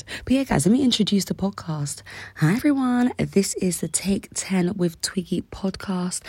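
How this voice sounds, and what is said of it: Raspy, rough voice. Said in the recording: “my voice might sound a little bit raspy ... my raspy, rough voice”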